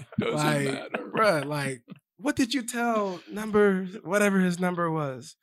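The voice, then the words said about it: Impression of a media interviewer. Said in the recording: “your media impersonation”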